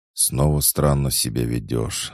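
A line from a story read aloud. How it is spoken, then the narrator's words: Sighing. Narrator (Russian): вздохнула Ната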